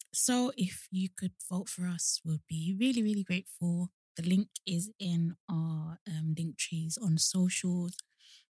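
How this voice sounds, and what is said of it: Rough voice, sounds like a cold. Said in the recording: “I don't know why my voice is like this... almost like I have a cold, or like I've been shouting last night”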